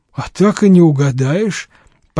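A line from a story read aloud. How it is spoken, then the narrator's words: Mumbling fool. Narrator (Russian): промямлил народный дурак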